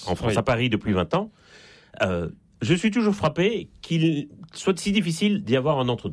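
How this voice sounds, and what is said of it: Slight Belgian French accent. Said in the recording (French): “ça s'entend un peu d'ailleurs à mon accent. Je suis né en Belgique”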